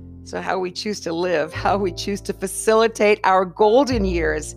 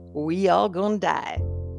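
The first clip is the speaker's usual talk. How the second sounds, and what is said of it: Put-on Southern drawl. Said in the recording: “in my best Southern drawl”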